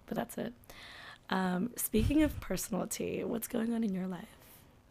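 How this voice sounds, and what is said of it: Hoarse voice. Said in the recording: “Her voice is hoarse as fuck... my voice is fucked”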